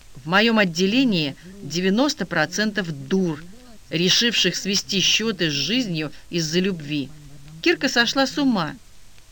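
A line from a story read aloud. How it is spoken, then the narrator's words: Angry declaration. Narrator (Russian): Лизавета сердито заявила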